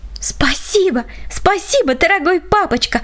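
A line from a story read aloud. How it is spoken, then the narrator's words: Overjoyed child exclaiming. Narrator (Russian): воскликнула малышка от избытка чувств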